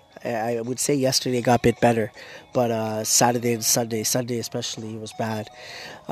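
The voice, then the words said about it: Congested, hoarse voice. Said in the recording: “My nose is blocked still. Both nostrils are blocked ... I've been losing my voice. I lost my voice pretty bad on Sunday.”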